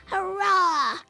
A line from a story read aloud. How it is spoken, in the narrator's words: Rollo shouted